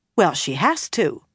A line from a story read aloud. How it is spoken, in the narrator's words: Nynaeve told her firmly